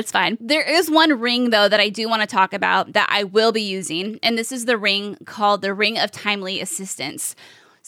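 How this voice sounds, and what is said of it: Strained, fading voice. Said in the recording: “I'm losing my voice because I have been streaming for about 4 hours now.”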